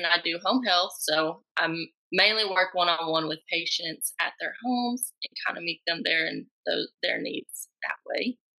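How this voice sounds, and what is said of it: Tennessee Southern accent. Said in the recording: “I love your accent.”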